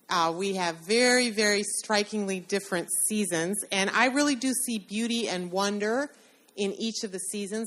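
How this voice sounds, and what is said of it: Chicago American accent. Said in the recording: “I have a different accent than you do... I'm not so pleased with my own from Chicago”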